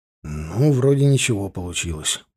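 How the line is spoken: Muttered. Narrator (Russian): пробормотал я, закончив писать

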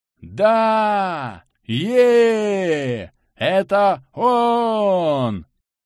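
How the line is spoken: Huge crowd roaring. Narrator (Russian): Взревела огромная толпа игроков

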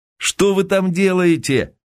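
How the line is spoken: Shout from behind. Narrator (Russian): крикнул Асин голос за его спиной

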